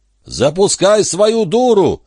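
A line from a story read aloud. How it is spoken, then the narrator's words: Deafening yell. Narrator (Russian): заорал он так, что голова чуть не раскололась надвое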